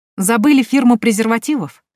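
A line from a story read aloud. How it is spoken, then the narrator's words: Cheerful question. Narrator (Russian): Весело спрашиваю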